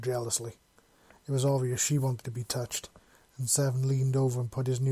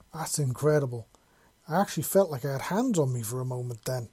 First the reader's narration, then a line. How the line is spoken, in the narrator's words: Malachi exclaimed